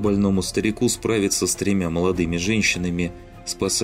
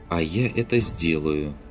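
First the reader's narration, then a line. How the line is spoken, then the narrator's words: Grim promise. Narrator (Russian): мрачно пообещала Кассандра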